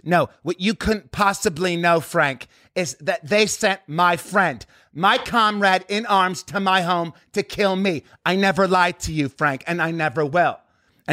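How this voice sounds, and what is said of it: John Malkovich impression, distinctive cadence. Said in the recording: “he does this whole thing with his cadence ... That's fucking really good ... Malkovich from Rounders is really good too”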